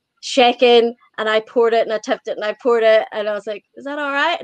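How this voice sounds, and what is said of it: Irish accent, easy to understand. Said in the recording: “I still love your accent. Yeah, I like the Irish accent, and I like your accent because I can understand you.”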